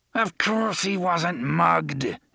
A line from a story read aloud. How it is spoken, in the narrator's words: Elmer Chambers snarled